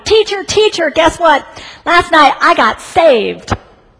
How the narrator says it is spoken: Christopher burst through the door shouting

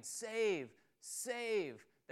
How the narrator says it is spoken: shouting

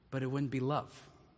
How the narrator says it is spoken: the Creator interrupted softly

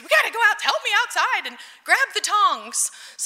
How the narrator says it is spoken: I screamed at the boys

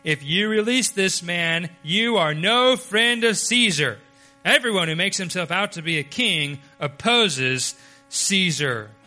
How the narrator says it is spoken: the Jews cried out, saying

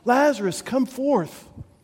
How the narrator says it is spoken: Jesus calls out, he cries out to Lazarus

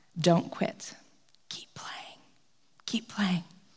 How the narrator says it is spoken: he whispered in his ear

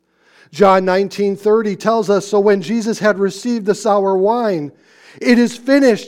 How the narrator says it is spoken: he cried

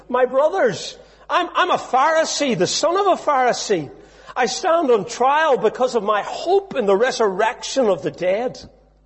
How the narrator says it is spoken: called out in the Sanhedrin

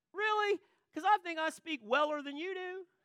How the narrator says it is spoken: I yell back

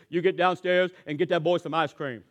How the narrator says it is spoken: in a deep voice, Johnny says

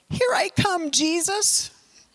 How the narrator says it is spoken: yell

